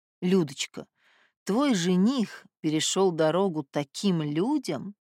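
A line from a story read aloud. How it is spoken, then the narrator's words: Sighing. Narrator (Russian): Папа вздохнул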